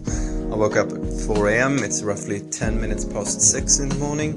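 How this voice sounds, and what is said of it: Strange-sounding sick voice. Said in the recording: “If my voice sounds strange, it's just because I am ill.”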